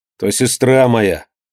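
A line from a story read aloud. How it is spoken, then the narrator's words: Angry reply. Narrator (Russian): ответил сердито орелка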